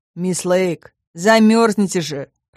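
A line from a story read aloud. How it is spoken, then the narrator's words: Grumbling. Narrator (Russian): проворчал Нед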